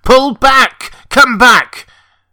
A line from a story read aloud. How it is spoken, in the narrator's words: Kirk pounded on the frame of the screen and shouted to the unhearing men below